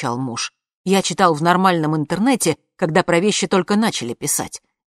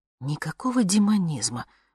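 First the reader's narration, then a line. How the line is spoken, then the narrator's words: Muttering. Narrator (Russian): бормотала я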